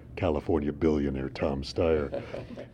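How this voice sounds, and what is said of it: Dramatic attack-ad announcer voice. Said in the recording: “put on my attack ad voice”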